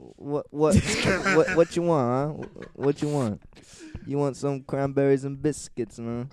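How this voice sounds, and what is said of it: Failed British accent, sounds Hispanic. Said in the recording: “becomes more Hispanic with every word he says when he tries to do a British accent ... that's not a British accent”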